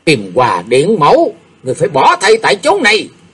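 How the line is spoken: Hissing voice. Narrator (Vietnamese): Chàng rít giọng tâm tâm

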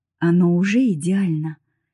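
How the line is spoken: Soft, tender reply. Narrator (Russian): мягко ответил он, и его взгляд потемнел, наполняясь нежностью

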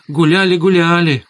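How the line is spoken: Joyful confirmation. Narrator (Russian): радостно подтвердила теща

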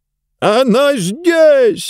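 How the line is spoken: Sudden full-throated yell. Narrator (Russian): вдруг заорал во все горло

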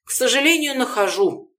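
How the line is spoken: Sighing. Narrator (Russian): вздохнула

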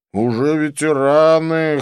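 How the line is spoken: Snort. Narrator (Russian): хмыкнул Клифф

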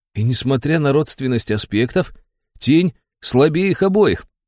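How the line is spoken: Excited exclamation of insight. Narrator (Russian): Поймав озарение, воскликнул Антоха

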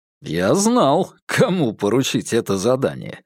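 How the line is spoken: Laughing. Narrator (Russian): рассмеялся в ответ Вербин

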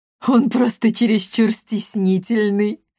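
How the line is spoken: Chuckling. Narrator (Russian): хохотнула Кризельда Гвидон

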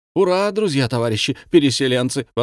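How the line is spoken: Exclaimed. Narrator (Russian): воскликнул Антон

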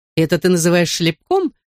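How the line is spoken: Laughing. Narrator (Russian): засмеялась Минни

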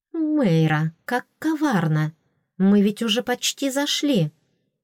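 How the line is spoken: Brisk rattled recitation. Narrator (Russian): весьма бодро оттарабанила

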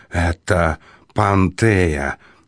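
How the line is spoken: Terrified, forced out. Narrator (Russian): с трудом разжал челюсти и, едва справляясь с ужасом, выдавил из себя

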